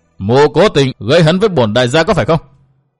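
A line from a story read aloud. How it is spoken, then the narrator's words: Shouting. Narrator (Vietnamese): Tô Bách Khôi quát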